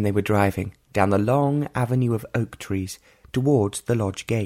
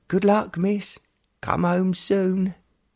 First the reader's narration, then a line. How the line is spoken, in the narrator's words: there were cries of